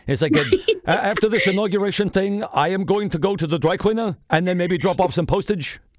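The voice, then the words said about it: Imitates another person's voice. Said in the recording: “my Bernie impression”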